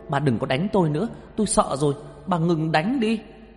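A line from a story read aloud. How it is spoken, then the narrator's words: Screaming in pain. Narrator (Vietnamese): Đau quá lên tôi hét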